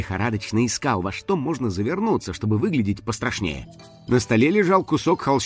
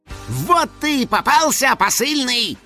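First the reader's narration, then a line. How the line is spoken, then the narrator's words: Scariest possible yell. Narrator (Russian): Финик завопил самым страшным голосом, на какой был способен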